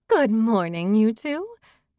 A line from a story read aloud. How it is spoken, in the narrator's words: laughed